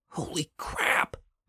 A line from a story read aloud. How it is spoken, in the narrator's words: Nathan whispered